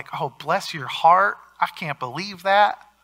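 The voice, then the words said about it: Put-on Southern Midwest accent. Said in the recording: “That's my Southern Midwest accent there.”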